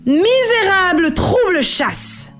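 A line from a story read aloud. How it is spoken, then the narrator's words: Furious shout. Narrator (French): cria-t-elle, furieuse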